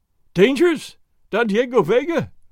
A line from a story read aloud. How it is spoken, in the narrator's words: the landlord cried, while tears ran down his fat cheeks